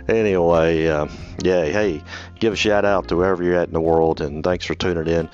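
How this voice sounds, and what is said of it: Southern American accent. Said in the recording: “this old Southern boy from North Mississippi and Memphis, Tennessee ... I do have a Southern accent”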